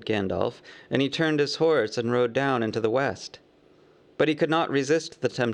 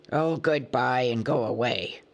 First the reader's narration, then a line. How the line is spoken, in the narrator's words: grunted the dwarves, all the more angry because they were really filled with dismay at losing him